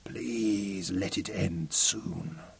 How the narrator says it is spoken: whispered

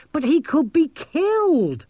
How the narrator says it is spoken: Maskelyne shrieked

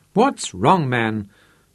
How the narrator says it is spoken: snapped

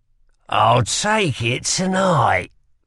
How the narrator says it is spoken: said with a sneer

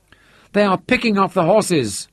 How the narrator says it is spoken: Santein cried

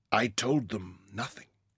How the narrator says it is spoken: whispered

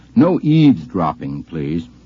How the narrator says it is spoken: said very sternly

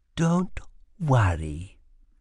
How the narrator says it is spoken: whispered

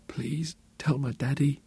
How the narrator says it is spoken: she whispered

